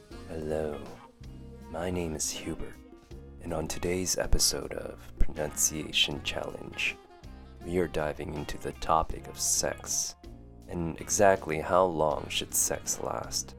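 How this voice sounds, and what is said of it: Attempted sexy voice. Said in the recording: “that was my best attempt at a sexy voice. Did it work? I would have to make a guess and say no.”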